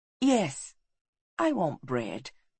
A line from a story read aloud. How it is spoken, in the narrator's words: she said softly